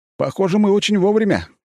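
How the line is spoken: Shout. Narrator (Russian): крикнул я Фирсову

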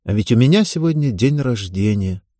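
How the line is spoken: Sad wry laugh. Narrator (Russian): грустно усмехнулась Ева

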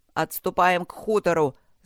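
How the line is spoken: Yell. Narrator (Russian): заорал Вершинин

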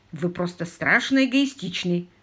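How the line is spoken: Grumbling. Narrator (Russian): проворчал мистер Паркер

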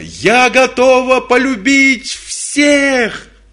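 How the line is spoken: Shouting. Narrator (Russian): закричала

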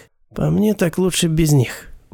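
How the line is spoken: Grumbled. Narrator (Russian): буркнул Сурсон

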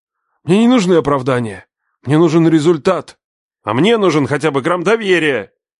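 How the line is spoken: Shouted. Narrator (Russian): выкрикнул я

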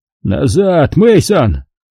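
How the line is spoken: Alarmed shout. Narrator (Russian): крикнул, заметив, что его спутник потерял защитный шлем и рискует стать жертвой тумана

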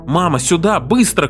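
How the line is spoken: Shout. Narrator (Russian): крикнул он

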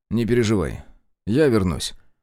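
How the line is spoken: Calm, smiling. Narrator (Russian): Спокойно улыбнулся я

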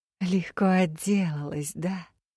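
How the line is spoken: Chuckling. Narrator (Russian): хохотнула Элигия

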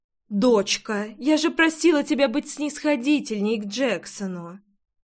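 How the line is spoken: Soft. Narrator (Russian): Мягко проговорила Лидия

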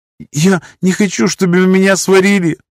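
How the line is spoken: Trembling babble. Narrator (Russian): пролепетала она с дрожью в голосе

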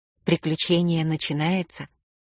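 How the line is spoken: Whisper. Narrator (Russian): прошептала я

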